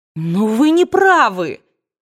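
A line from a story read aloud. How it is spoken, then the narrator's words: Exclaimed, unable to hold back. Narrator (Russian): воскликнула она, не в силах больше сдерживаться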